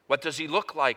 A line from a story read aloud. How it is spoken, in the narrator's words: asked